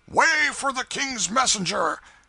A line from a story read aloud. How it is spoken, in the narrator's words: a voice shouted